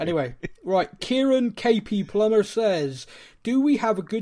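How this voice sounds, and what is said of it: Usual voice. Nothing is said of it.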